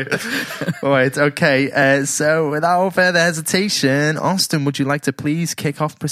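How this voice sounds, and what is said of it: Usual voice. Nothing is said of it.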